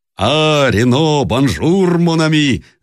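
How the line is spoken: Shouted greeting. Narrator (Russian): закричал Папилью

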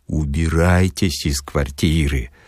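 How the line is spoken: Warm, heartfelt whisper. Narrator (Russian): задушевно шепнул Филипп Филиппович

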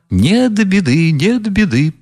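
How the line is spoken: Glad eager chiming in. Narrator (Russian): подхватил Фердыщенко, обрадовавшись, что начали смеяться

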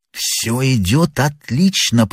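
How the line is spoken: Whispered. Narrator (Russian): прошептал первый

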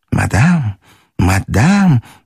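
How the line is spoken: Honeyed whisper. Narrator (Russian): медовым голосом шептал бабушке де Грие

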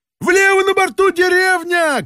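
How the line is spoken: Shout. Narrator (Russian): крикнул Балаганов

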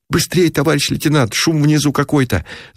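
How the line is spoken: Hoarse wheezing. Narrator (Russian): Засипел Ушатиков

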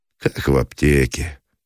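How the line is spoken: Casual, unremorseful. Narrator (Russian): ответил Меженин будничным голосом человека, не омраченного угрызением совести

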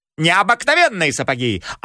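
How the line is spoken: Yelling. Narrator (Russian): орал агроном на Забежкина таким голосом

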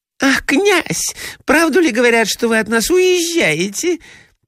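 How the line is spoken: Squeaky. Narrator (Russian): пропищала Фелисата Михайловна

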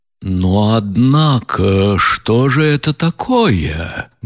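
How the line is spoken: Sudden angry exclamation. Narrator (Russian): грозно и внезапно воскликнул рассердившийся Ардалион Александрович

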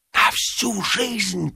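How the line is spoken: Whisper. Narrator (Russian): прошептал Ипполит Матвеевич

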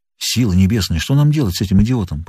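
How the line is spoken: Whisper. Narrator (Russian): прошептал фотограф

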